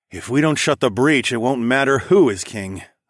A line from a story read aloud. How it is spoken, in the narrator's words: I sighed